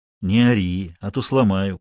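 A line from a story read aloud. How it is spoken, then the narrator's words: Deceptively soft. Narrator (Russian): проговорил Вик обманчиво мягко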